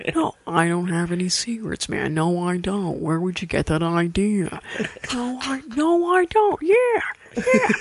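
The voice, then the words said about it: Imitates another person's voice, secretive tone. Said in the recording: “I'll leave you with my favorite impression ... Owen Wilson's the one I never get tired of ... he always sounds like he wants to tell me a secret”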